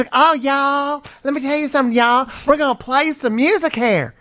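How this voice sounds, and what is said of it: Put-on southern accent. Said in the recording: “she's got a southern accent.”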